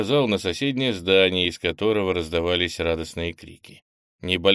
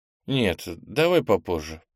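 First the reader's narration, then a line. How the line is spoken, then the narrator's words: Mumbling. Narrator (Russian): пробормотал Кенни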